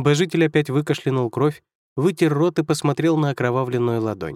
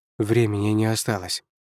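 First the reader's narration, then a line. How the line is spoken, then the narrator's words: Muttered. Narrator (Russian): пробормотал он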